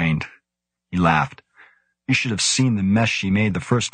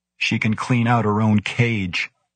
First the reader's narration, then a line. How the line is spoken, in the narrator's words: Karlstad said